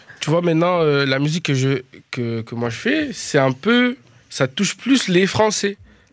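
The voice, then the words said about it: Slight Dutch accent in French. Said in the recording (French): “je suis pas francophone. Oui, mais oui, on, entend, un petit accent, on sait que, t'es un néerlandophone”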